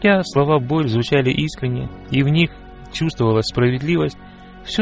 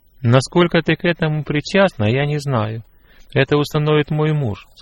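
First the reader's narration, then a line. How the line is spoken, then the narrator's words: Plain. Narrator (Russian): сказала она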